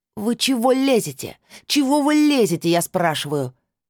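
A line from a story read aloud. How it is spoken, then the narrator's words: Woman yelling. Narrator (Russian): заорала женщина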